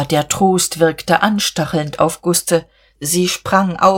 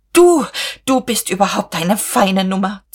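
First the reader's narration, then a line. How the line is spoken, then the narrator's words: Hissing. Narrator (German): zischte sie Käthchen zu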